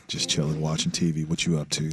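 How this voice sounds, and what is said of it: Sexy late-night phone voice. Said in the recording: “my sexy hey, late night phone voice that we all used to use”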